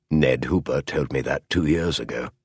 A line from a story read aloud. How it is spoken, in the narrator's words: Holmes said very quietly